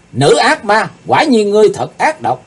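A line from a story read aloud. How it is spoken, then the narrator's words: Loud shout. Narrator (Vietnamese): Chàng hét to lên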